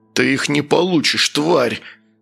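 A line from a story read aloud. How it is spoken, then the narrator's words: Growled. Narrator (Russian): зарычал Оркус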